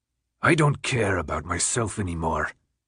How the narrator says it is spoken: Newt responded in a low growl

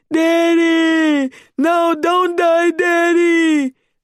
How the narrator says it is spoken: I wailed

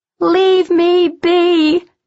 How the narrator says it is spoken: Arian shouted, not meaning it

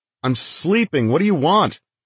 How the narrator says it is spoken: I yell

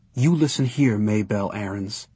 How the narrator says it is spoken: he whispered fiercely

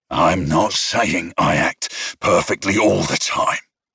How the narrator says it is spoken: he growled

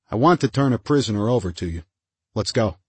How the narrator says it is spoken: Oles said calmly

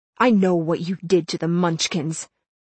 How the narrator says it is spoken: I spat at Glinda

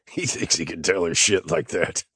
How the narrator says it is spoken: the husband wheezed in amusement

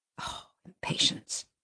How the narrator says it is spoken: Benton whispered

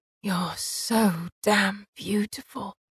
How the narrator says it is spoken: he whispered, his voice thick

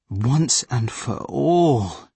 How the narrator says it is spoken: he said wearily

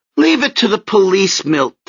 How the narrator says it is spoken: Tessie pleaded

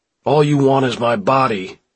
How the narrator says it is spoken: he yells at them

